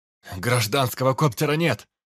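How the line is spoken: Yelling. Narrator (Russian): заорал Дид

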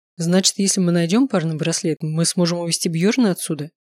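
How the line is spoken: Plain. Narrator (Russian): спросил Лео

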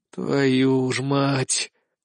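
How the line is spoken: Weary exhale. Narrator (Russian): устало выдохнул я

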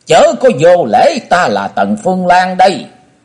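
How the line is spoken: Old woman's shrill scream. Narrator (Vietnamese): Quái bà thét lên lanh lảnh

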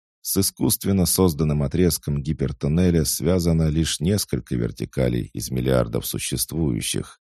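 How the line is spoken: Plain. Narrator (Russian): ответил Дэниел

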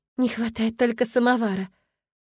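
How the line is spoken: Quiet, smiling. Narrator (Russian): С улыбкой проговорила тихо, надеясь, что меня услышит только Эрион

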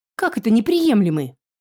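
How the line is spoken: Yelled again. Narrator (Russian): Снова завопил фолиант

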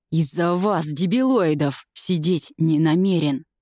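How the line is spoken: Hissing through teeth. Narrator (Russian): Шипит сквозь зубы и с яростью

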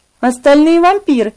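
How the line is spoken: Whispered. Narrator (Russian): прошептала

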